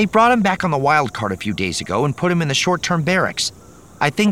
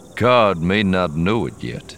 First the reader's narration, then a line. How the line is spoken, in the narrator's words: Lando said dryly